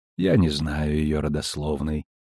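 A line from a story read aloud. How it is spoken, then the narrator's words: Calm reply. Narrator (Russian): спокойно ответила первосвященница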